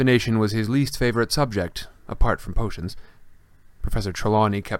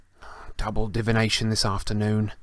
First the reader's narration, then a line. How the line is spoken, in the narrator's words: Harry groaned